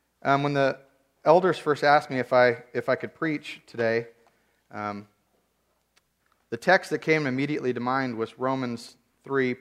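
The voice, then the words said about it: Weak, strained voice from illness. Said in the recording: “I was sick all week, and my voice is barely hanging on.”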